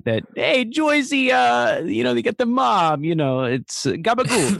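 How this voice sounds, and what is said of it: Put-on New Jersey mobster accent. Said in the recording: “mocking his Jersey accent ... they all talk in that”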